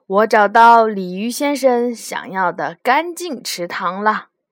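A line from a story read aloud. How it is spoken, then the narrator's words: Loud. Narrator (Chinese): 大声的说道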